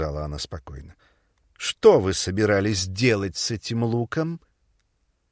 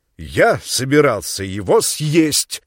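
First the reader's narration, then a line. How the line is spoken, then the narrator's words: Loud, deliberate. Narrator (Russian): сказал он громко и раздельно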